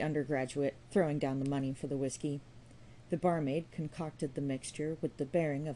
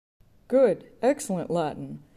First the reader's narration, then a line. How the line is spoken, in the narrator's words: cried one of the undergraduates